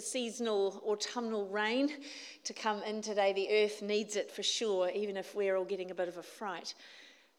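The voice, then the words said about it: New Zealand accent. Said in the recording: “for those who haven't heard me speak before ... your gamble on which country I come from ... Kiwis”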